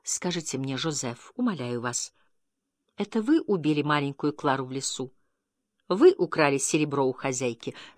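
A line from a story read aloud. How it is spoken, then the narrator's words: Tender, deeply agitated question. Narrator (Russian): нежно, ласково, с невыразимым волнением спросила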